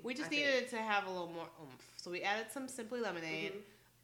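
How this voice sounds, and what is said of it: Slightly slurred, tipsy speech. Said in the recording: “this is my second one. If you can't tell by how I'm slurring my words.”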